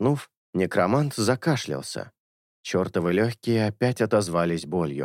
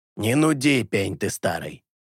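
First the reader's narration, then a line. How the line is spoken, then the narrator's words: Grumbled. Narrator (Russian): Буркнула Лето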